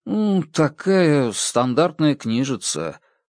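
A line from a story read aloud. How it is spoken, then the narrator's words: Mumble. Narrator (Russian): промямлил Даррен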